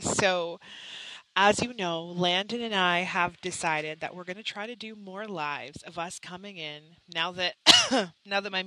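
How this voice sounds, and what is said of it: Congested voice with sniffles. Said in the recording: “I have a little bit of a cold. So if you hear sniffles, it's because I have a little bit of a cold.”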